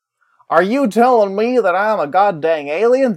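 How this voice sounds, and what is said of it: Bad put-on American regional accent. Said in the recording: “That was a terrible accent ... That wasn't even from, like, the proper part of the States.”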